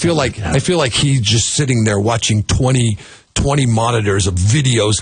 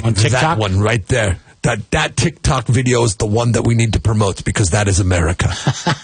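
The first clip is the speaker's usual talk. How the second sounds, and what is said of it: Put-on Hispanic accent. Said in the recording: “I'm speaking with a Hispanic accent when I'm mimicking Xi Jinping”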